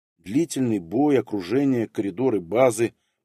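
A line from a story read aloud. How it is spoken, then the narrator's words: Grumbling astronomer. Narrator (Russian): проворчал астроном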